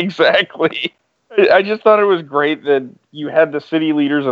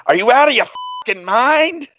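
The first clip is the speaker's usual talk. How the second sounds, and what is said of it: Poorly done Boston accent. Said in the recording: “that was my horrible Boston accent ... that is a tough accent to do”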